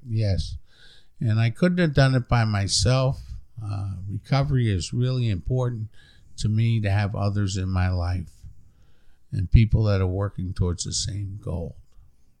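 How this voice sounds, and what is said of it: New York accent. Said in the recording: “I'm from New York originally... We couldn't tell by the accent... Long Island, New York”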